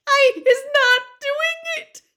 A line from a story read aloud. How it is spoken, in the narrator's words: she squealed, her eyes rolling in terror